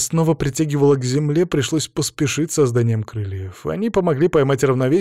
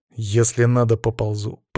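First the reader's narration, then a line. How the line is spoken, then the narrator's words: Through gritted teeth. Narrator (Russian): процедил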